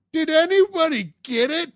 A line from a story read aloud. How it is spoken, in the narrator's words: this older woman just yells out